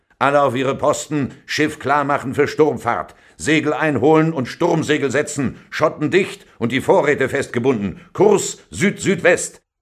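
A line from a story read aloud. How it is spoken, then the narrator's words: Wild man speaking. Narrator (German): sagte der wilde Olaf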